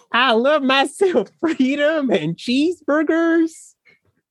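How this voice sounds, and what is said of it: Put-on old-timey American prospector accent. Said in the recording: “my American accent ... You sound like an old-timey prospector”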